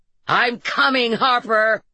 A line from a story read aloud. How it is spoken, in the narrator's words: Jacob yelled, and he made the barking sound of laughter